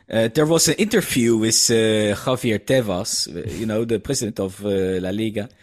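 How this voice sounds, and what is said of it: Dutch accent. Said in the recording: “I'm letting my Dutch accent come out.”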